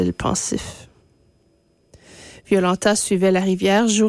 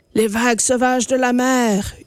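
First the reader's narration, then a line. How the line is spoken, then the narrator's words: Howling wind. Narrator (French): hurla le vent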